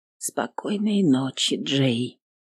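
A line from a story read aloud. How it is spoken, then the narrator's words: Whisper. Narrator (Russian): прошептала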